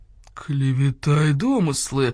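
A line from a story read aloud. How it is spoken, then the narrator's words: Muffled growl. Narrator (Russian): глухо зарычал полкан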